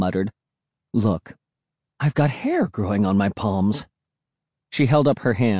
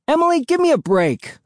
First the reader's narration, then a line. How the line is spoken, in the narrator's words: I shouted